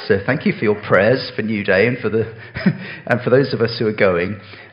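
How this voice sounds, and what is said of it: Hoarse, nearly lost voice. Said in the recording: “I have almost lost my voice ... that I might have a bit of voice back”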